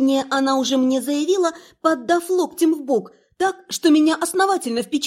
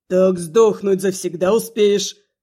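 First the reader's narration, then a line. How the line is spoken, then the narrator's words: Convinced growl. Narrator (Russian): Убежденно рыкнула Рибая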